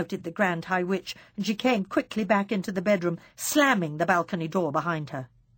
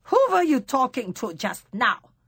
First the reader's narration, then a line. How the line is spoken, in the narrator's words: snapped the Grand High Witch